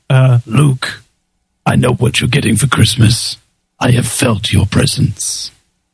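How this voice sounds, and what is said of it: Deep resonant imitated voice. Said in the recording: “That's a pretty good impression... James Earl Jones does have an awesome voice... one of the most resonating voices I've ever heard”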